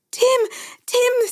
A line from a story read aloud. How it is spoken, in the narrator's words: Sandy screamed